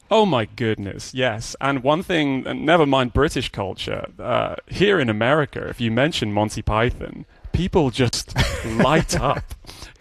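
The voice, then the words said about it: British accent. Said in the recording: “where we hear your accent, still as vibrant and present in British culture”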